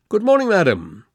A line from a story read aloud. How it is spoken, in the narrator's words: said Holmes cheerfully